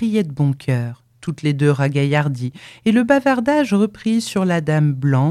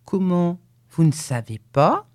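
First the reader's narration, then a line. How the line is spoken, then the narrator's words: Fluty voice. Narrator (French): dit la Rollet d'une voix flûtée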